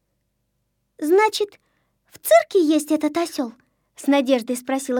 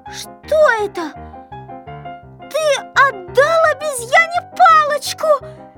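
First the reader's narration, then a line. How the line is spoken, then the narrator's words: Shouting. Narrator (Russian): закричала Кнопочка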